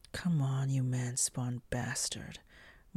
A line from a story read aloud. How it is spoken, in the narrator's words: Moore growled in her thoughts